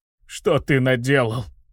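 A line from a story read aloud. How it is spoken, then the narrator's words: Hopeless hoarse rasp. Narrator (Russian): прохрипел Батист, обреченно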